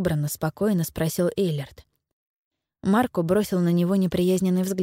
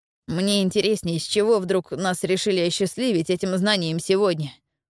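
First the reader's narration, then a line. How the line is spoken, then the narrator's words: Grumble. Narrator (Russian): пробурчал он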